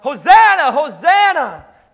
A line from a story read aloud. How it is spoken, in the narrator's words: millions of people just worshiping, thinking, finally, a political Savior, which is why they yell